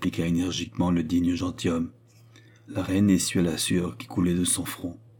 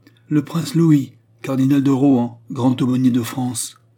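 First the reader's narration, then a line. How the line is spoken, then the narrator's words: Usher shouting from corridor. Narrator (French): cria une voix d'huissier dans le corridor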